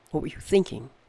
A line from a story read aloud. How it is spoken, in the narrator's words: whispered